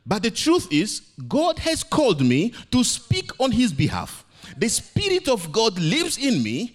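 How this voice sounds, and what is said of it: Non-native English accent. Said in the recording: “English is not my first language. ... My accent is funny.”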